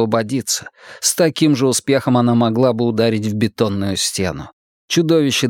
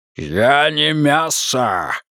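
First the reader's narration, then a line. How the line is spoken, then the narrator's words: Growled. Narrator (Russian): рыкнуло оно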